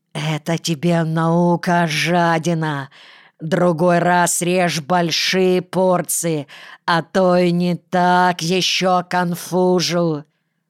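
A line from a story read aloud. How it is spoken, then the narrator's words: Hissed into ear. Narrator (Russian): Василий Васильевич прошипел ему на ухо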